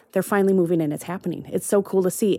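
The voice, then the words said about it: Excited, enthusiastic tone. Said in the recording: “you sound excited.”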